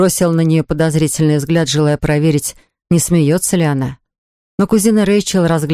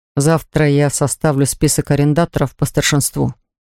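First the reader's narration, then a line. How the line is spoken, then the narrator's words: Plain. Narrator (Russian): сказал я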